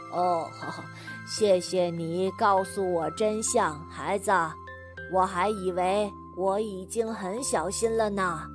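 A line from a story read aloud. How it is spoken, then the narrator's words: Smiling. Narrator (Chinese): 那个买水果的顾客，朝他笑着说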